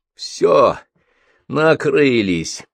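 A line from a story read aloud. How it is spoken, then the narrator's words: Hoarse rasp. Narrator (Russian): прохрипел Михалыч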